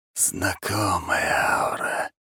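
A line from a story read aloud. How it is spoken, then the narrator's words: Hissing surrounding voice. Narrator (Russian): зашипел голос вокруг нас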